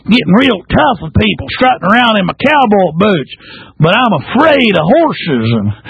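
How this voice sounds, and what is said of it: Put-on Texas accent impression. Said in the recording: “Let me shift over into my... All right, Texas accent.”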